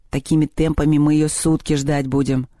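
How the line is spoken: Grumbling. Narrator (Russian): пробурчал Мишка

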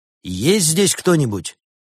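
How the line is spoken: Loud question. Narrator (Russian): громко спросил он

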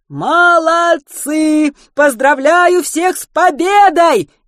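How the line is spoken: Cheerful shout. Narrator (Russian): весело закричал тот

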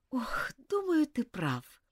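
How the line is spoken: Sigh. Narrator (Russian): вздохнула Элизабет

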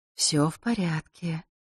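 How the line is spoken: Small sudden whisper. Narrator (Russian): неожиданно шепнул напуганный Василисе голосок Клементины

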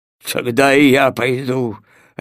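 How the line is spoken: Barking snap. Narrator (Russian): рявкнул пес Тело

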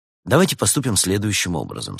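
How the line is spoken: Plain. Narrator (Russian): сказал Улисс

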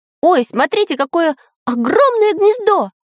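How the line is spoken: Excited shout. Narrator (Russian): закричал Самоделкин

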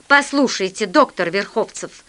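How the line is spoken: Angry. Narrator (Russian): сказал я сердито

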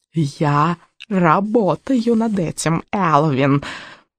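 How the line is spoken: Hoarse croak. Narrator (Russian): прохрипела ведьма

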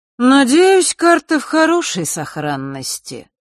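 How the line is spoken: Lazy continuation. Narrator (Russian): лениво продолжил Нортон-старший

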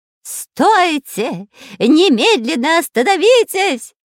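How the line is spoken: Eerie, terrible shout. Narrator (Russian): кричал жутким голосом шпион Дырка

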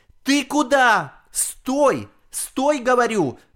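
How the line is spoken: Grandmother shouting. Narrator (Russian): кричала бабушка

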